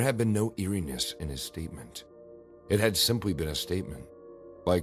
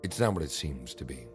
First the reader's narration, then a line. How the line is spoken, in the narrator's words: He continued in a low voice